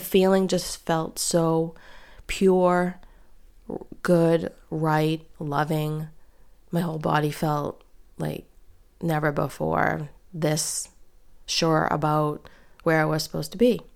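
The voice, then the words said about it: Congested voice from a cold. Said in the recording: “you can probably hear I have a cold”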